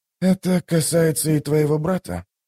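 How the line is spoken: Quiet inquiry. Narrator (Russian): тихо поинтересовался Ток

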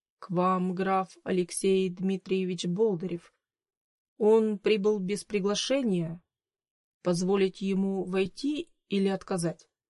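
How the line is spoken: Uneasy hesitant butler. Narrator (Russian): Чувствуя неладное, неуверенно произнес дворецкий

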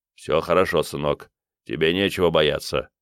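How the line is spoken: Gruff. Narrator (Russian): сказал он грубо

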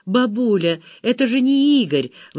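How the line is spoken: Exclaiming. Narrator (Russian): воскликнула Зина

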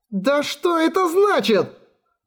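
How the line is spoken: Exclaiming. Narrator (Russian): Воскликнула Виви

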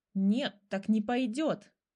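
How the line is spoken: Tigress growling. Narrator (Russian): зарычала тигрица

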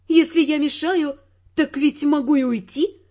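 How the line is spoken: Offended declaration. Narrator (Russian): обиженно заявила

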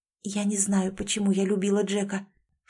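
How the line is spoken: Girl whispering. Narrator (Russian): шепотом поведала девушка

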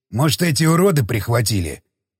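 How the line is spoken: Angry growl. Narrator (Russian): зло прорычал Самохин

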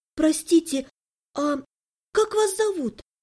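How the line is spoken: Unsure, embarrassed question. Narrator (Russian): неуверенно спросила, чувствуя, как начинают гореть кончики ушей от стыда

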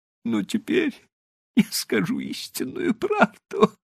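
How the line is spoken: Inspired sob. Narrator (Russian): вдохновенно всхлипнул Диса

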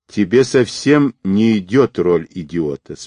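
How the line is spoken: Calm woman's remark. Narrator (Russian): спокойно заметила женщина

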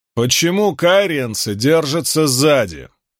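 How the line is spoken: Loud question. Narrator (Russian): громко спросил Ранд

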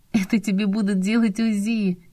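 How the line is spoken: Nervous giggle. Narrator (Russian): нервно хихикнула

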